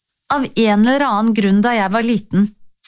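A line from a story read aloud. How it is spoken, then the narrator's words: Plain. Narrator (Norwegian): sa jeg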